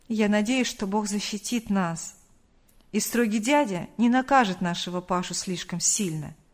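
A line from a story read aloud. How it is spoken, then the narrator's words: Father's sighing reply. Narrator (Russian): вздохнув, ответил отец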